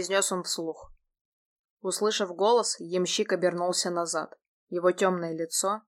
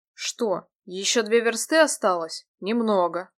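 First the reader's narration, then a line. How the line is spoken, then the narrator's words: Plain, coachman. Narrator (Russian): сказал ямщик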